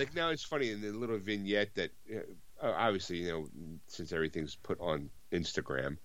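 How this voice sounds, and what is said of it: Usual voice. Nothing is said of it.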